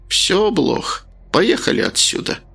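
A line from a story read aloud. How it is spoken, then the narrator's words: Sighed. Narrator (Russian): вздохнула странница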